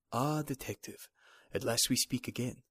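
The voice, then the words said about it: Put-on Chinese accent. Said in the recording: “The vaguely familiar voice had an unmistakable Chinese accent.”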